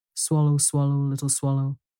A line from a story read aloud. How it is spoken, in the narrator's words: said the prince